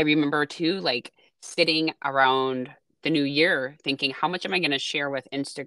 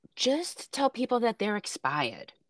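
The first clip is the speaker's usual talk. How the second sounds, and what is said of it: Imitates another person's accent. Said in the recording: “that's his, his accent. ... his accent.”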